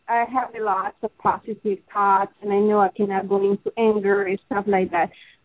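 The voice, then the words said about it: Strong, hard-to-follow accent. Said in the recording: “I'm having a little trouble with your accent”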